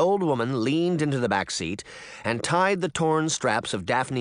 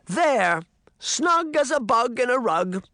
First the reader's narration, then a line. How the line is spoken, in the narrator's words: the old woman hollered